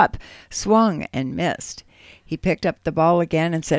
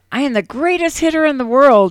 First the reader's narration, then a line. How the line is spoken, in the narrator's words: He shouted out